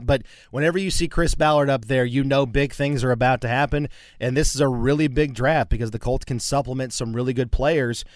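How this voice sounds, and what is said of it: Sick voice with a cold. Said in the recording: “playing hurt a little bit today ... I apologize for the voice. Got a little bit of a cold ... a little bit of a sore throat”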